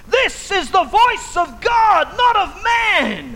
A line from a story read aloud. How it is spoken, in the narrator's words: they shouted